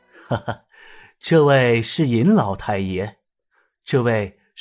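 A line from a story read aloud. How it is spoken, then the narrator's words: Hearty laughing. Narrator (Chinese): 知府杨云轩呵呵笑道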